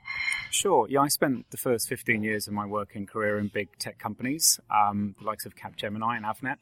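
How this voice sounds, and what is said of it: English accent. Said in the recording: “another interesting accent ... I'm from Hampshire in England”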